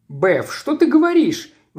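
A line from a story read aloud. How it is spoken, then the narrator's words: Exclamation. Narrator (Russian): воскликнул он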